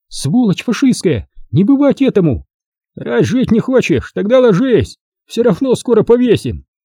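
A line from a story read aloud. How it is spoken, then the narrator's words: Shouting. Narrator (Russian): она закричала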